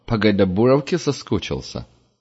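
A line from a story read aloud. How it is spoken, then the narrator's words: Smirking snort. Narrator (Russian): хмыкнул Ксор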